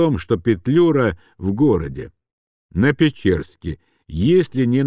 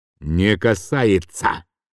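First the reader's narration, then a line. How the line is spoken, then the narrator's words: Angry reply. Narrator (Russian): злобно ответил он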